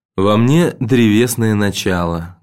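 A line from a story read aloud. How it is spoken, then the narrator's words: Sad. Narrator (Russian): грустно сказал Петр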